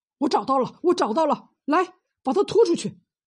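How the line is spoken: Shouting. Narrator (Chinese): 胡大喊道

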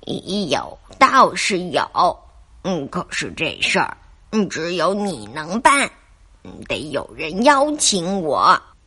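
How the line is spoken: Lowered voice. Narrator (Chinese): 土狼接着压低声音说

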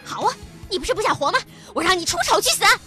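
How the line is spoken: Shouting. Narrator (Chinese): 田梦喊着

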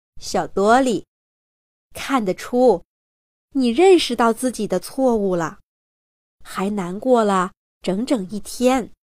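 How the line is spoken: Gentle grandmother. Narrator (Chinese): 索菲亚奶奶温柔地对他说

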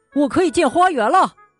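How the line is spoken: Excited exclamation. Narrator (Chinese): 惠灵顿叫了起来

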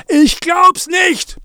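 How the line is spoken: Roaring. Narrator (German): brüllte Zachi

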